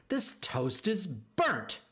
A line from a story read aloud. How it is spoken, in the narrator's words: she snapped